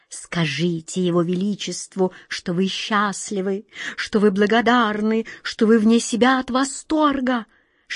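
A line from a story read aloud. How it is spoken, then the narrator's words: Ingratiating whisper. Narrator (Russian): шептал ей на ухо чей-то вкрадчивый голос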